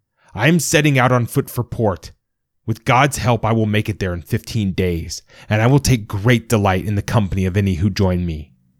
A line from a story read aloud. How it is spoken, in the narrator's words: he shouted